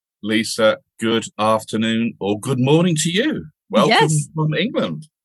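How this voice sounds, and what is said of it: British accent. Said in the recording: “his charming British accent”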